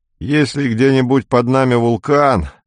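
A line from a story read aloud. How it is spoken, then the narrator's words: Groaning. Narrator (Russian): простонал Белов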